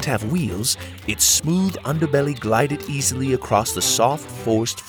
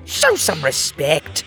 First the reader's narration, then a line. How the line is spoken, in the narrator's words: snarled